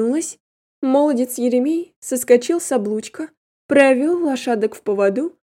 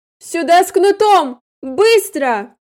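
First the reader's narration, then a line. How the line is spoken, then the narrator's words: Commanding mistress's shout. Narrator (Russian): я кричала именно как госпожа-повелительница, а не голосила мокрой барыней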